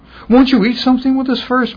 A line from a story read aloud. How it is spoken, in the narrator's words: Mom pleaded